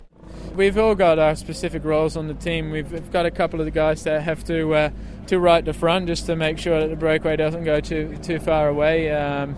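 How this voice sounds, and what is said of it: Slight Australian twang. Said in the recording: “a bit of an Aussie twang to ... accent”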